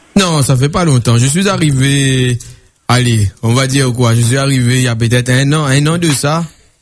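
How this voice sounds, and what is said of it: Réunion Creole French accent. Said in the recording (French): “il peut y avoir un accent qui trompe ... créole de père et de mère réunionnais ... je viens de la Réunion, je viens pas des Antilles”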